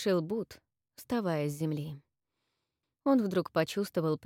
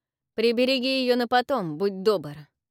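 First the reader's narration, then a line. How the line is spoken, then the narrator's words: Snorting. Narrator (Russian): фыркнул Авис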